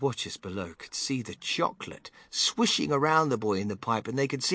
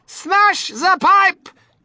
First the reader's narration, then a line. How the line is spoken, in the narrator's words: yelled Mrs